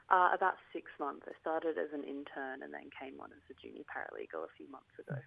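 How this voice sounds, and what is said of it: Posh-sounding accent. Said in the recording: “You've got a bit of an accent there ... we're a bit posh down here ... Speaking with a plum in your mouth”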